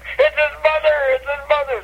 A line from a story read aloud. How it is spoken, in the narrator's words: the kids start screaming